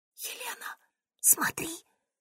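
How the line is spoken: Whispered. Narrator (Russian): прошептала

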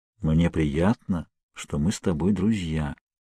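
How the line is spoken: Quiet, conspiratorial. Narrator (Russian): тихим, заговорщическим тоном

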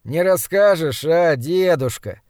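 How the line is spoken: Sleepy voice. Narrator (Russian): сонным голосом проговорил подмастерье, немного погодя

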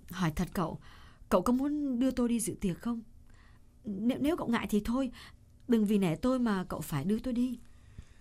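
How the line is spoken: Hesitant. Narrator (Vietnamese): Cô ngập ngừng một chút rồi nói

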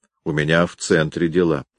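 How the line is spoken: Plain. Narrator (Russian): ответил Гуров

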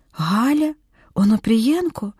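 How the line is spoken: Whispered. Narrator (Ukrainian): прошепотіла Ольга

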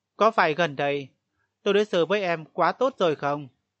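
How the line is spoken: Cold. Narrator (Vietnamese): Triệu Húc Hàn lạnh lùng nói

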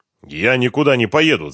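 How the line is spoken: Angry declaration. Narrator (Russian): зло заявил Ренат

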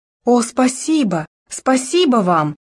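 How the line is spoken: Exclaiming. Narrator (Russian): воскликнула Даяна

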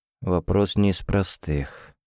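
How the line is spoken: Muttering. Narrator (Russian): пробормотал Тофлер

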